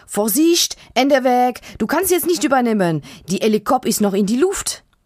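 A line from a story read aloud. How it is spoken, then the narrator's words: Called. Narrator (German): ruft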